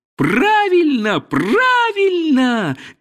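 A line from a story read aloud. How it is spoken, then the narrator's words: Crows shouting. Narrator (Russian): кричали ему некоторые вороны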